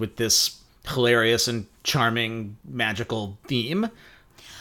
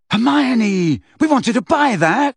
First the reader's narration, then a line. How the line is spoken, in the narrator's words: shouted Ron